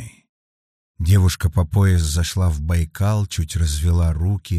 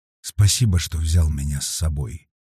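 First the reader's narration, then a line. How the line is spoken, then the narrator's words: Quiet. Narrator (Russian): тихо сказала Криденс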